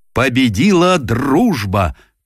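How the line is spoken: Solemn triumphant shout. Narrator (Russian): торжественно выкрикнул он

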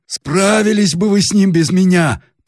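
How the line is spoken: Hoarse ugly bass interruption. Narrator (Russian): прервало хриплый отвратительный бас

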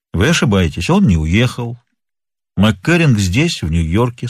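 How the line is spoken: Calm statement. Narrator (Russian): спокойно заявил Нат Пинкертон

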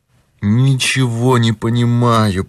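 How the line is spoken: Moaning. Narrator (Russian): простонал тот

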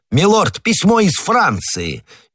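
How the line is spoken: Shout. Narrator (Russian): Патрик и крикнул

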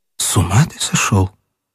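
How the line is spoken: Trembling, unclear voice. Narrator (Russian): она дрогнувшим неясным голосом ответила

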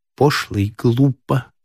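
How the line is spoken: Plain. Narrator (Russian): сказала Зоя

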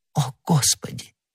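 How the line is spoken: Whisper. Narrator (Russian): прошептала она

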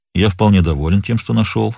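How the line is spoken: Calm. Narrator (Russian): спокойно ответил тот

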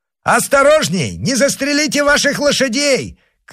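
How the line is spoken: Shouting, then bursting into laughter. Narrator (Russian): крикнул Д'Артаньян и разразился смехом

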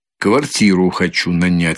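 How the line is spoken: Plain. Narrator (Russian): сказал он

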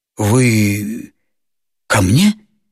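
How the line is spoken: Uncertain question. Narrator (Russian): спросил он неуверенно

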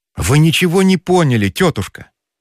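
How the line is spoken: Exclamation. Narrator (Russian): воскликнул

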